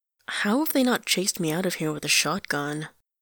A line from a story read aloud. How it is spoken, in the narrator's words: mutters